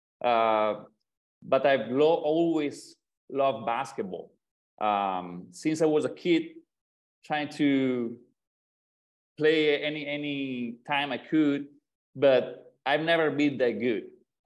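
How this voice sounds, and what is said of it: Italian accent. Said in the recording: “I'm not American. From my accent, probably you can understand it. I'm from Italy”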